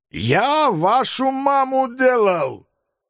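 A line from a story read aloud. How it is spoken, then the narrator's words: Uncontrolled shout, Georgian priest. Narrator (Russian): Не удержавшись, прокричал грузинский батюшка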